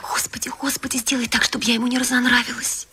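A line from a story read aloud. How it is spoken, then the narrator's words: Hurried whisper. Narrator (Russian): она торопливо зашептала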